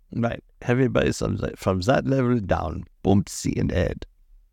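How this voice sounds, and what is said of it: Put-on German accent. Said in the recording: “you do that accent far too well ... Oh, now I'm a Nazi”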